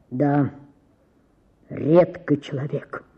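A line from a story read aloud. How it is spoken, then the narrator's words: Deep bass voice. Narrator (Russian): сказал кто-то басом в гостиной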